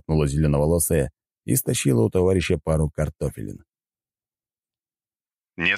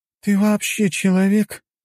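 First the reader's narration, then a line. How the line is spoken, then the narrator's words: Moaning. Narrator (Russian): простонала Аня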